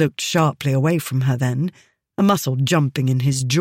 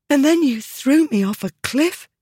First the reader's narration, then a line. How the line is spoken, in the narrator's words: she said, her voice a bit breathless, even to her own ears